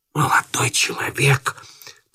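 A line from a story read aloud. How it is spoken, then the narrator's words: Startled whisper. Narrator (Russian): прошептал встрепенувшись Иван Андреевич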